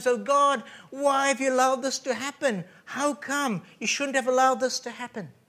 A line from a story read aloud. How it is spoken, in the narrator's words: She must have cried out to God